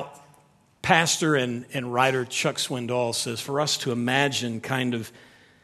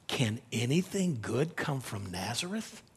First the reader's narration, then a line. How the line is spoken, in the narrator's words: whispered to themselves